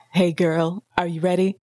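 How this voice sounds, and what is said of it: Close-mic sultry sexy voice. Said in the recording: “Speaking really close to the mic in a very sexy voice.”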